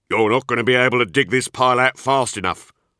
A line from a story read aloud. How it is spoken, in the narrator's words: barked